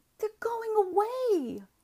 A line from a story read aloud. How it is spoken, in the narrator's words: the boys cried